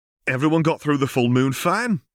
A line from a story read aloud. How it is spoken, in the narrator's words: exclaimed Ignis